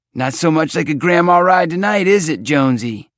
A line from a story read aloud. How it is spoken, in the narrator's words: He shouted